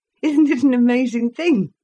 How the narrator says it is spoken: cried Gudrun

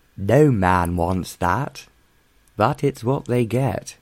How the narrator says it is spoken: added Hallam gloomily

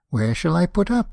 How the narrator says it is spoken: he said

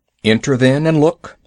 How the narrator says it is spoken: said Father Wolf stiffly

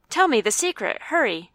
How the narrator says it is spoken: I cried

